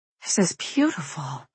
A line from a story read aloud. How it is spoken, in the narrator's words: I half-whisper, shaking my head in awe